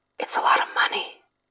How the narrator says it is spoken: Mikey whispered

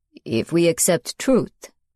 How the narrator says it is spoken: he intoned

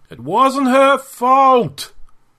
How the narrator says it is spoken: he cried out to the Xenoc ghosts

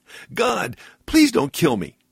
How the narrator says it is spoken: cried out again

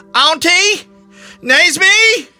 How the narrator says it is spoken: cried out in panic

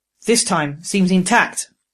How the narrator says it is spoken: Growler said musingly

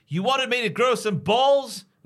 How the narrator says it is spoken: BJ, and he shouts

